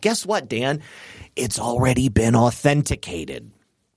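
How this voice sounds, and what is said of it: Whispered imitation of another person's voice. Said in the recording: “my best Joe Biden impersonation. Lean into the mic and whisper.”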